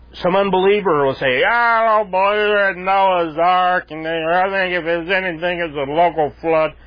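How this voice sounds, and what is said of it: Imitation of a drunk person. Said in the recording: “my imitation of a drunk”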